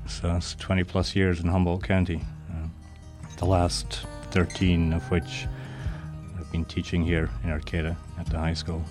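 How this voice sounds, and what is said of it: Scottish accent. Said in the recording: “English with a Scottish accent”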